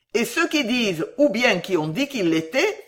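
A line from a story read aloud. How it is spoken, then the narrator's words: Exclaiming. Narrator (French): s'écria Sam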